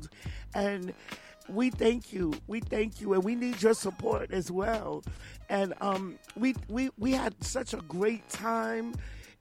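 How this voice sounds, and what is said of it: Strained, worn-out voice. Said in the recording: “my voice is a little crazy right now ... as you can hear, I really need to rest my voice”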